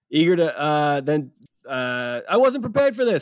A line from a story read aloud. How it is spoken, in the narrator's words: Sophia shouts at Baymax, panicking